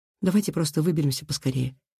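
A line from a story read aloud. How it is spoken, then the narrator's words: Whisper. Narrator (Russian): прошептала Кира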